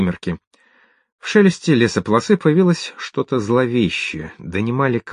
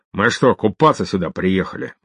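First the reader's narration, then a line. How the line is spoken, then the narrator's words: Gloomy. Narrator (Russian): мрачно ответил Амбал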